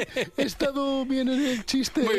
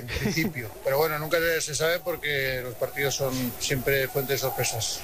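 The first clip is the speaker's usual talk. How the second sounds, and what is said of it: Imitated voice with a strong Aragonese accent. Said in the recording (Spanish): “Me ha salido acento mañito. ... Pero mucho, ... bastante.”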